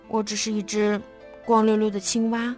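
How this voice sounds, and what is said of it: Quiet, complaining murmur. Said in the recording (Chinese): “小声抱怨道”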